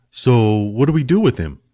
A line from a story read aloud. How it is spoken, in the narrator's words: Billy asked